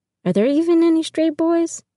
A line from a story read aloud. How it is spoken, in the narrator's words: laugh